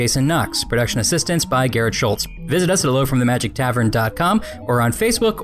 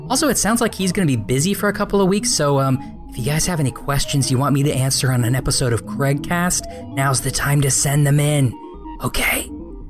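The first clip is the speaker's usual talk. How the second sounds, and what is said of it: Whispering. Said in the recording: “I'm whispering.”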